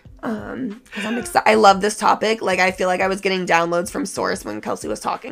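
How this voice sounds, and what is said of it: Hoarse, losing voice. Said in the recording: “when I am like really tired, I lose my voice... I'm losing my voice right now. I'm sorry that I sound so crazy... my voice sounds crazy”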